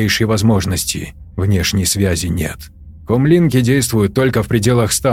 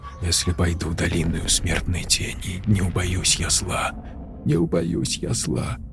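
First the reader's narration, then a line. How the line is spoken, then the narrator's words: Sobbing, barely voiced whisper. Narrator (Russian): шептала, тихо всхлипывая, Тори одними губами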